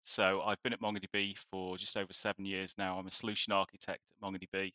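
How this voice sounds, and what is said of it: British English accent. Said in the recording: “as you can probably tell from the accent, I'm from the UK”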